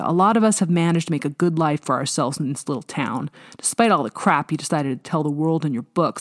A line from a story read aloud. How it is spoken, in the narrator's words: he snapped